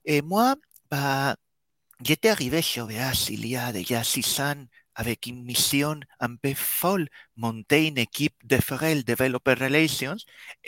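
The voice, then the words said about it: Slight Spanish accent in French. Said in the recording (French): “Le petit accent que vous arriverez peut-être à percevoir si vous vous concentrez Bien du fait que je suis espagnol ... l'accent ne part pas”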